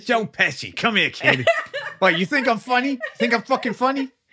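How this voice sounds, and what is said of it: Joe Pesci impression. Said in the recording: “your impression of Joe Pesci”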